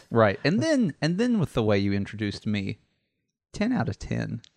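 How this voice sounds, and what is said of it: Calm, understanding public-radio announcer voice. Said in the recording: “I've even got my NPR voice on... you get like you, like... more understanding... you're like hello, welcome. It's like welcome. You got not a Mr. Rogers voice, but yeah”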